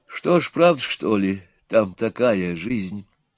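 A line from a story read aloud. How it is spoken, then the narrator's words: Quiet question. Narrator (Russian): спросила Нюра тихо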